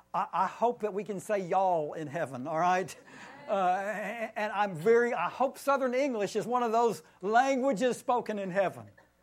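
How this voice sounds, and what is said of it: Southern Tennessee twang accent. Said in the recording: “I am probably terminally Southern. I don't know if you hear Tennessee twang in my accent or not.”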